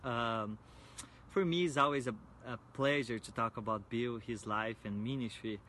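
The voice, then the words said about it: Brazilian accent. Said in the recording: “I'm from Brazil, as you can see from my accent.”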